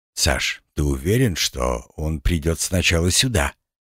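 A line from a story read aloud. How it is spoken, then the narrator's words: Quiet question. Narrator (Russian): тихо спросил у меня Нифонтов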